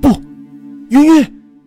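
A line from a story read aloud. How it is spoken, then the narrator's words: Loud cry. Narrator (Chinese): 连云大叫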